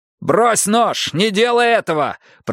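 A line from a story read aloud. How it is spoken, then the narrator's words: Shouted. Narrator (Russian): прокричал Йона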